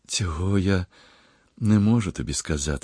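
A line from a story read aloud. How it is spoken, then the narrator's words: Sigh. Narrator (Ukrainian): зітхнула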